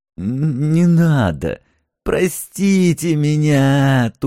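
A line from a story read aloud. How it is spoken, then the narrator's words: Whimpering plea. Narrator (Russian): заскулил Зингельхофер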